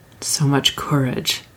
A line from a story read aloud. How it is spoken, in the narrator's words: Haru murmured